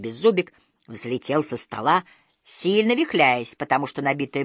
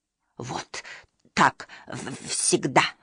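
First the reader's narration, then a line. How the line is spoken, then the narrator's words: Grumbling. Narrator (Russian): ворчал Беззубик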